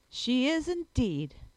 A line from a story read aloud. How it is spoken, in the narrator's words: exclaimed, not a little disgusted